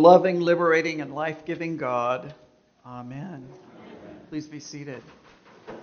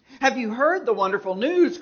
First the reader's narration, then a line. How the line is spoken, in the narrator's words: cried the fox in a very joyful and excited manner